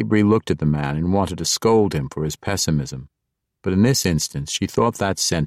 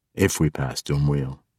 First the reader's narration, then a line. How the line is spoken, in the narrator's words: Entreri corrected, too quietly for Jarlaxle to hear